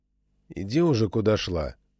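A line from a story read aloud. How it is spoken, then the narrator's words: Tired reply. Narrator (Russian): устало ответил Игнат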